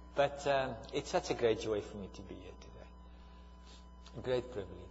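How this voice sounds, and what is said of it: Speaks with a noticeable foreign accent. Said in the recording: “understand my accent”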